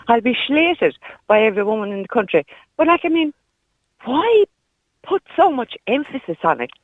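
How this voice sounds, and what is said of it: Irish Kerry accent. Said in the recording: “you can hear the Kerry accent coming out”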